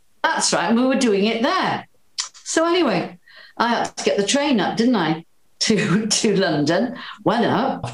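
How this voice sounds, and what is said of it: Welsh accent. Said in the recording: “my Welsh accent”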